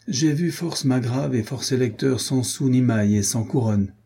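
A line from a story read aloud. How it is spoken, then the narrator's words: Plain. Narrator (French): dit-il encore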